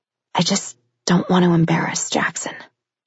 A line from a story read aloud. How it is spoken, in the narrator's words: she whispered, getting to the truth of the matter